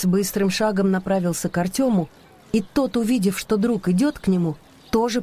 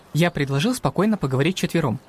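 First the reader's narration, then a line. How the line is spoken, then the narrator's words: Quick. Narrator (Russian): быстро сказал Тёме Макс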